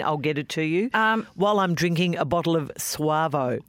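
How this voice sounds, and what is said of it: Put-on accent. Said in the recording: “God, the accent.”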